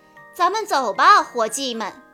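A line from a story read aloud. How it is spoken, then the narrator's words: Loud shout. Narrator (Chinese): 葛兰先生大声喊道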